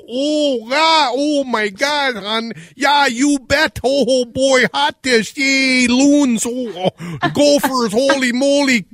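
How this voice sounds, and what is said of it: Exaggerated Minnesota accent. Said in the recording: “we don't sound like that ... It's way over the top ... Get the accent right ... I know we talk funny”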